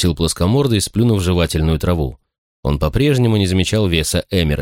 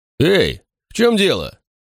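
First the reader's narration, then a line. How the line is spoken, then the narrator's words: Barked. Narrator (Russian): тот рявкнул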